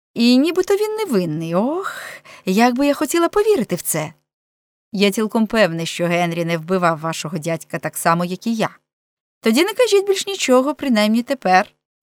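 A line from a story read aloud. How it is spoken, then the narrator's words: Cheerful girl interrupting. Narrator (Ukrainian): весело перебила дівчина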